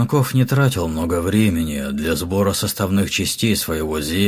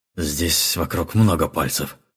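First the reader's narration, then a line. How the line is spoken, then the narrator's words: Grumbled. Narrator (Russian): проворчал Якага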